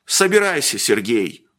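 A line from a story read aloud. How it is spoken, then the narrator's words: Sullen grumble. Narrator (Russian): угрюмо проворчал Ладышкин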